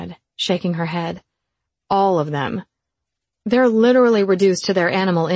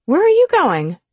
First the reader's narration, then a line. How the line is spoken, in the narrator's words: I cried